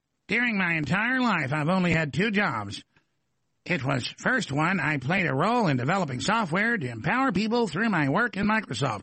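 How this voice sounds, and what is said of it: Poor impression of Bill Gates. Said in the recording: “I'm not good at imitation”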